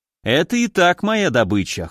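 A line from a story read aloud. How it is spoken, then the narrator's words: Snorting grunt. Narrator (Russian): хмыкнул я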